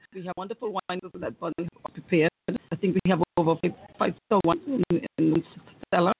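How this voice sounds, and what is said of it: Anguillan accent. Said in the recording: “don't you love accent? Isn't that a wonderful accent? ... that's an Anguilla accent. I love it.”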